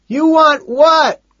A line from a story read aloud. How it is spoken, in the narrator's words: He shouts back